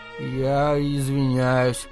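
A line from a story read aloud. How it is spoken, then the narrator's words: Hesitant. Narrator (Russian): неуверенно произнес Рикки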